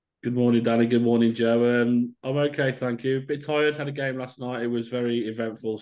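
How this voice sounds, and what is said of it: Slightly croaky, tired voice. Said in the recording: “my voice is a little bit croaky”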